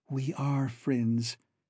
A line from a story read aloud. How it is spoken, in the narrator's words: she replied softly